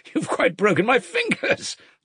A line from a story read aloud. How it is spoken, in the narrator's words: laughed Kalganov